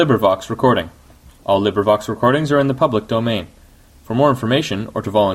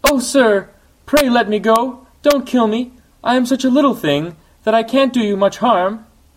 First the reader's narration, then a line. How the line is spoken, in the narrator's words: The flea, terrified, whimpered in a weak little voice